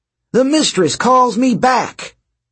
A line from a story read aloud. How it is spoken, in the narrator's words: Dylan shouted with glee